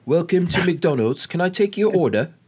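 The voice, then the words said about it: Put-on British accent. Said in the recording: “does the kiosk have a British accent?”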